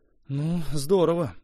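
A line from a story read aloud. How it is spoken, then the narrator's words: Grumbling mutter. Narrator (Russian): буркнул он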